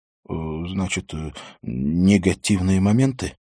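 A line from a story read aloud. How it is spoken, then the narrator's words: Heavy sigh. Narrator (Russian): Нордбе тяжело вздохнул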